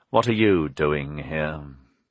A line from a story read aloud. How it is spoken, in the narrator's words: The bishop said coldly